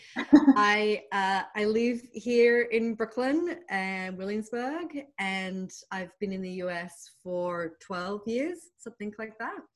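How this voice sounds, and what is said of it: Australian accent. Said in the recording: “As you can tell from my accent, I am Australian, not British, which is the other common mistake people make about me.”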